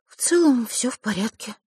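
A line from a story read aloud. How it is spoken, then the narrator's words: Dejected sigh. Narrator (Russian): сокрушенно вздохнула Василиса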